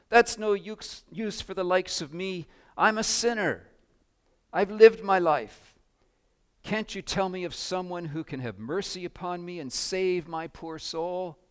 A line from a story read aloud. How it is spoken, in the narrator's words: she cried